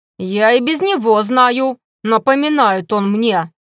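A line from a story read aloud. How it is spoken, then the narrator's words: Grumbling cook. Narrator (Russian): заворчала повариха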